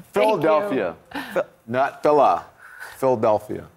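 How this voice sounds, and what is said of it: Philadelphia accent. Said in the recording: “You got the accent down.”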